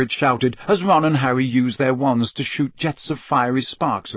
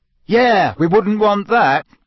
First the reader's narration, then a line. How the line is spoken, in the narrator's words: Ron shouted angrily